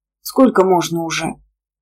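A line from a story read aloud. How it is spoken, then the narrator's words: Grumbling small child. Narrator (Russian): Пробурчал самый маленький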